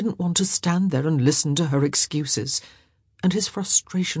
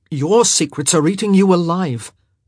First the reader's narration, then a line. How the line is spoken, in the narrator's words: he said sharply